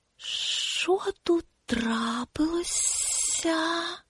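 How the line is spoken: Quiet hiss. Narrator (Ukrainian): Тихий голос прошипів

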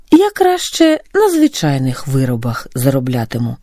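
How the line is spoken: Calm reply. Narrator (Ukrainian): спокійно відповів Григорій

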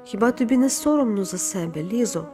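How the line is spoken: Sad voice. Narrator (Ukrainian): Паула сказала сумним голосом

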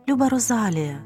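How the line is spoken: Tender. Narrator (Ukrainian): сказала вона ніжно

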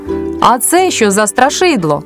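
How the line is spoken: Boy shouting. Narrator (Ukrainian): Якийсь хлопчик закричав

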